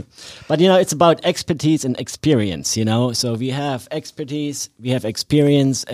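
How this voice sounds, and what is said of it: Non-local foreign accent. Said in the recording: “Half of it's the accent. I love that guy's accent. ... he ain't from around here.”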